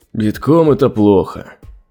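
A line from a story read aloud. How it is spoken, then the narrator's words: Sorcerer's sigh. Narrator (Russian): вздохнул колдун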